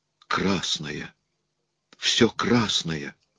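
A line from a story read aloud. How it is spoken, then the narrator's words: Trembling, hoarse. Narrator (Russian): Рядом раздался голос Элизы, дрожащий и хриплый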